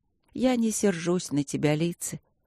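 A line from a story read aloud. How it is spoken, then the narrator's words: Husky, soft voice. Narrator (Russian): хрипловато и мягко проговорила леди Шарлотта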